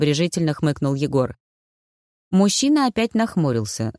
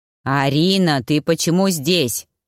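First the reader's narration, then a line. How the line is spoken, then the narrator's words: Menacing question. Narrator (Russian): грозно спросил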